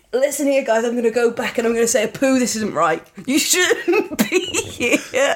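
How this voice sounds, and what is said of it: Put-on British accent. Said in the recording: “the voice actor doing the British accent.”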